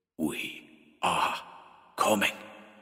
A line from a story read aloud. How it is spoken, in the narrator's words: it whispered